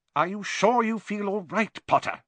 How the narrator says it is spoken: said Professor McGonagall sharply

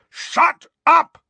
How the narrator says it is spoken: roared Uncle Vernon and Aunt Petunia in unison

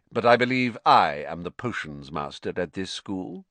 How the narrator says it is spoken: said Snape, icily

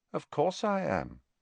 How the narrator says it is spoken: said Harry calmly

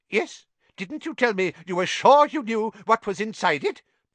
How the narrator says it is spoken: piped up Professor Flitwick

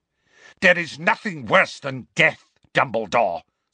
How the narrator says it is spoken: snarled Voldemort

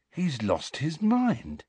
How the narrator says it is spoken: said Ron, in an almost awed voice

